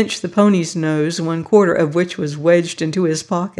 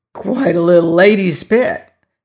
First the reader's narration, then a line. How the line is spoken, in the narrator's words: said Balaam with a rasp in his voice